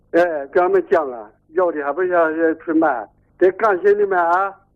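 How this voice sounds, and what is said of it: Heavy regional Chinese accent. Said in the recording (Chinese): “你这个口音很不好懂啊”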